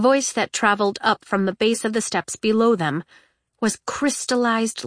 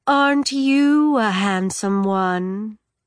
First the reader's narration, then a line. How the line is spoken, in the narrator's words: she said to Legend in that same hypnotic voice